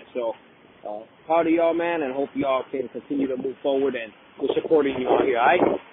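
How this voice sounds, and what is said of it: Very thick Chicago accent. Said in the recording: “the thickest Chicago accent ever”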